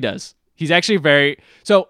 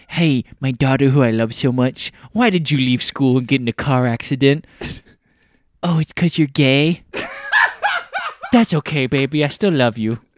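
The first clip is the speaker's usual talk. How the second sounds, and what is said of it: Imitates another person's voice. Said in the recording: “This is my Christian Bale Dick Cheney impersonation.”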